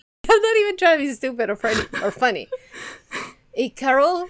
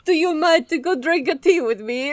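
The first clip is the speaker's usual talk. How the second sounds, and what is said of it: Put-on French-sounding fancy accent. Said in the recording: “I'm going to try to do my best accent. This is going to be bad... I want him to sound fancy or seductive?... I think I'm going to sound French.”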